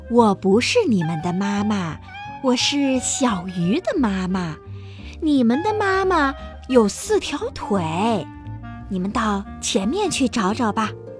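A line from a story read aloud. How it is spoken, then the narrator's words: Smiling. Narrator (Chinese): 大鱼 笑着说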